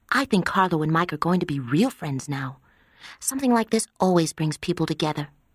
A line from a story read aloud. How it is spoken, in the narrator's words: Connie whispered to Kay